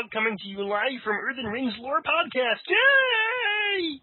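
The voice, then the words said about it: Kermit the Frog character voice. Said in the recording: “doing that wonderful voice of Kermit the Frog”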